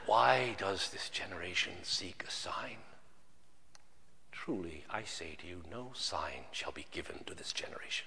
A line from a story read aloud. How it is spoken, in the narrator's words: he sighed deeply in his spirit and said